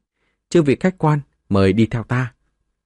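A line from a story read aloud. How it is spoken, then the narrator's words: Smiling young woman's greeting. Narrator (Vietnamese): một thiếu nữ trẻ tuổi chào đón, mỉm cười mà nói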